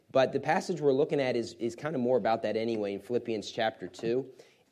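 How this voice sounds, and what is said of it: Damaged, strained voice. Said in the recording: “my voice is a little bit messed up today”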